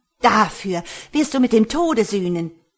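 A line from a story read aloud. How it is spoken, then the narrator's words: Shriek. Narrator (German): kreischte sie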